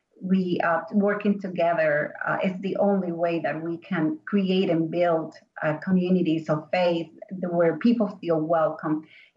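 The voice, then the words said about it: Foreign accent. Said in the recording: “I'm a foreigner, as you can hear. I have an accent.”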